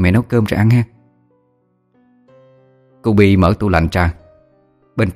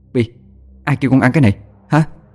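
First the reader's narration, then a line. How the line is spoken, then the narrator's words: Scolding shout. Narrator (Vietnamese): mẹ quát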